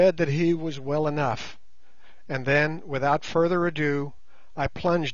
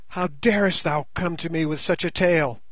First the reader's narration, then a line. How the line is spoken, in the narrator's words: she cried